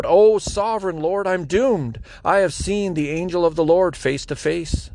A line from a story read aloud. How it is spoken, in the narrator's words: When Gideon realized that it was the angel of the Lord, he cried out